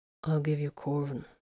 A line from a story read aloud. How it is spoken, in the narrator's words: Varone said quietly